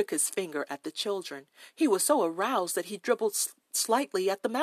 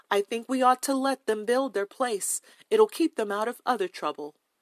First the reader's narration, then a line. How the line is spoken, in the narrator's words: McGill in a good, strong voice